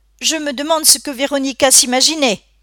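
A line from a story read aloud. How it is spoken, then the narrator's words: Grandmother exclaiming. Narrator (French): s'écria sa grand-mère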